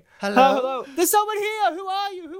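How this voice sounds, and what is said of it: Shouting loudly. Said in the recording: “she was like shouting all her lines ... It was just too loud”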